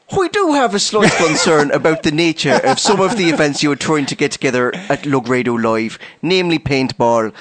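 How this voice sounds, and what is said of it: Put-on Irish accent. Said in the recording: “Shall I do the accent? ... I'm sorry that I've offended everyone on the island of Ireland.”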